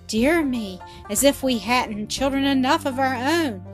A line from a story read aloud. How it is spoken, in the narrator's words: exclaimed Mrs